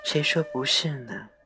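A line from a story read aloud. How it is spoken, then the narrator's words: Sighing. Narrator (Chinese): 他母亲叹了口气道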